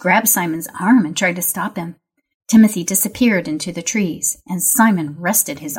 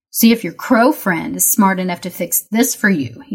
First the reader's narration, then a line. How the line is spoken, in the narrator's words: he said, and laughed as he ran off